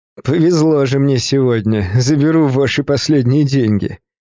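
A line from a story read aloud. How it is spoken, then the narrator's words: Mocking tone. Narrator (Russian): издевательским тоном продолжил он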